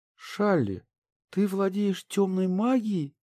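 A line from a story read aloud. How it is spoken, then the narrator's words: Terrified squeak. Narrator (Russian): В ужасе пропищала Ария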